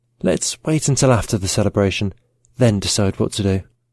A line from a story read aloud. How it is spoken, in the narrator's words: whispered in his ear